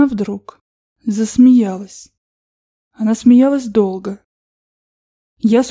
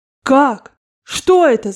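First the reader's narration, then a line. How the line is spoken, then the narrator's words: Shouting. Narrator (Russian): закричал я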